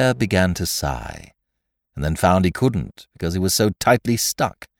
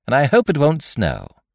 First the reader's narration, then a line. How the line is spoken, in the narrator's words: said Rabbit cheerfully